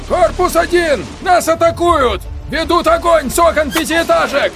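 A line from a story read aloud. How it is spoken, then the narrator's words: Shouting into radio. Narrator (Russian): прокричал в рацию капитан Шайков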